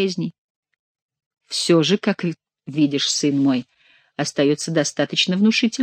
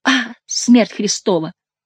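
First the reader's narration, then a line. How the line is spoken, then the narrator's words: Exclamation. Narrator (Russian): воскликнул Генрих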